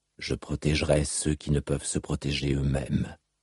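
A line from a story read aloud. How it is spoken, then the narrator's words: Murmuring. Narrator (French): murmura-t-il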